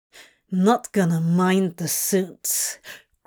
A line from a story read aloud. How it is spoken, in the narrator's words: Crowley growled